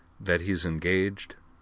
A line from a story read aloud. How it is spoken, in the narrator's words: Utena Tenjo's voice said dryly in her mind